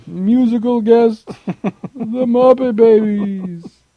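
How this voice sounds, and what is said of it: Imitates another person's voice. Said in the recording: “worst Don Pardo impression ever ... It was my Ted Knight impression”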